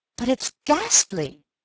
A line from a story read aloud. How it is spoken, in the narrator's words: I cried